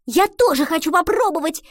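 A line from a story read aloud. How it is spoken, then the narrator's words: Exclaiming. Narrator (Russian): воскликнула Гретхен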